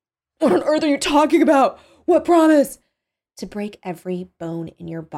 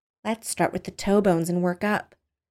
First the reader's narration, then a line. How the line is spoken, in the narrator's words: she said quietly